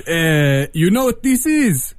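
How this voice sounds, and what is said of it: Heavy Israeli accent. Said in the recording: “in his heavy Israeli accent”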